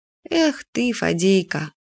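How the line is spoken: Sighing. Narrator (Russian): вздохнула Юля

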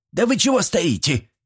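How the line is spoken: Barked. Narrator (Russian): рявкнула Степанида

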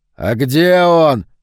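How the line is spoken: Sudden scream. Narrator (Russian): завопил вдруг Палатазин

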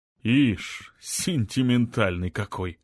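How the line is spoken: Snorted. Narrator (Russian): фыркнул мэр

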